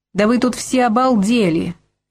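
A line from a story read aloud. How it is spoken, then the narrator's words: Furious yelling sailor. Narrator (Russian): яростно орал моряк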